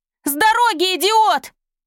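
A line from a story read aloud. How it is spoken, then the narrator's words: Shouting. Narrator (Russian): Изольда крикнуть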